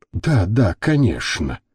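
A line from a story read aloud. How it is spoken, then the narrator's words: Dazed mumble. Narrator (Russian): Немного ошарашенно пробормотал Альберто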